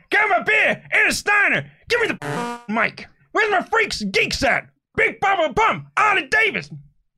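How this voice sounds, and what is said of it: Shouted impression of another person. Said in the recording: “your Scott Steiner voice ... Basically just shout. It's basically the only way to do a Steiner impersonation. It's not even that good.”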